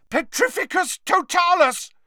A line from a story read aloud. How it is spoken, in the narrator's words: yelled Harry, struggling to cling on to the smooth, soaked surface of the island